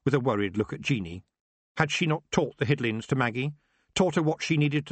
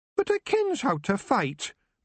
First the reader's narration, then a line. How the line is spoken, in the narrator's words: Maggie said sulkily